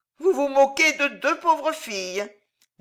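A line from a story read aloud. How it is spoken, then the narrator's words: Sad. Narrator (French): dit tristement la roussotte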